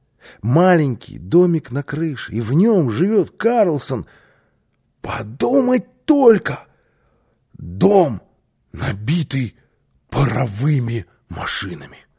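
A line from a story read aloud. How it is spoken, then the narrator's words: Excited child exclaiming. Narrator (Russian): воскликнул малыш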